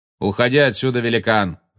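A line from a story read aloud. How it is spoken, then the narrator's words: Shout. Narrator (Russian): крикнул Магориан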